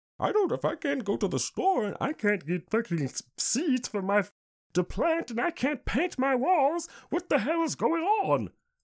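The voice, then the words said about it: Mocking voice. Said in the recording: “saying in my mocking voice”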